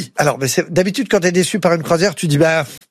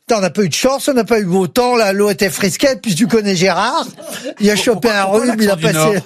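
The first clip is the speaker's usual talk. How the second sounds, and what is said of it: Put-on northern French accent. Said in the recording (French): “l'accent du Nord”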